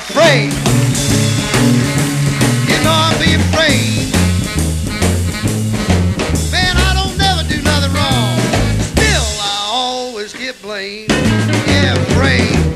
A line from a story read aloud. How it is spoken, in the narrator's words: holler